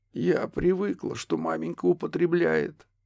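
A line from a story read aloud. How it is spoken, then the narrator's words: Hoarse forced-out words. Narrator (Russian): сипло вытолкнула почтмейстер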